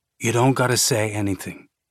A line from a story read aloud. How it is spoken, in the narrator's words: Timmy said, his tone almost apologetic